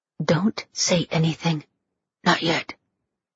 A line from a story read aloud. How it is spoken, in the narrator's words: a woman's disembodied voice whispered